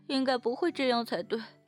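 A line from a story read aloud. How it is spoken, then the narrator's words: Relaxed laughing. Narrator (Chinese): 少女却是轻松的笑着回答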